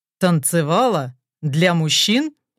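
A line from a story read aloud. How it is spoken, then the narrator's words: Low growl, suddenly tense. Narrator (Russian): Расслабленность в голосе моментально пропадает, сменяясь тихим рычанием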